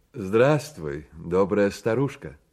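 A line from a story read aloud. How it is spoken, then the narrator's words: Plain. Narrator (Russian): сказал он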